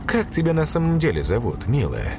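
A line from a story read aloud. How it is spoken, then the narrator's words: Sighing. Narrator (Russian): Блондинка вздохнула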